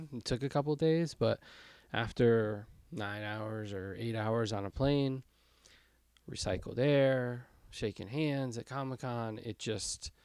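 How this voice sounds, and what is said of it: Rough, hoarse voice. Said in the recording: “my voice is a little rough... I definitely got sick”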